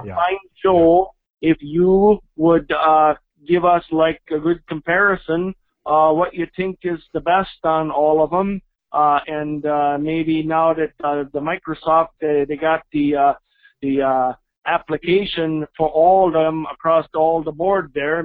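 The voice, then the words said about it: Bad fake accent, Mexican to Swedish. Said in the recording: “a terrible accent, by the way ... That accent went from, like, Mexican to, like, Swedish. Like, in a sentence.”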